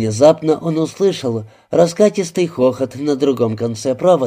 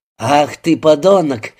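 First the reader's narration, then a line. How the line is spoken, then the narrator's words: Said, then bursting laughing. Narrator (Russian): сказал Раскин и тут же сам расхохотался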